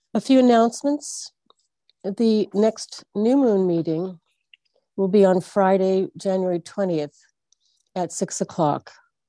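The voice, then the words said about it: Congested, throaty voice from a cold. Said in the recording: “excuse the throat interference, I have a little cold”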